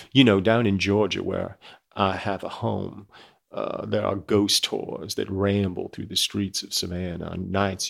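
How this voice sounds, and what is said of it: Put-on Georgia Southern accent. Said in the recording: “I know that's not a Georgia accent. I don't know what it is, but that's going to be my default Georgia accent”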